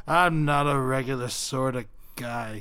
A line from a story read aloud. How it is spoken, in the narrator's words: he sighed